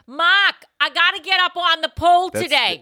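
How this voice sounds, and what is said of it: Put-on Boston accent. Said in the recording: “I got to do a Boston accent because that's where I'm from... so it's got to be a Boston stripper”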